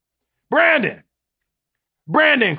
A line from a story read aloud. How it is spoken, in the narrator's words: Quincy hollered across the room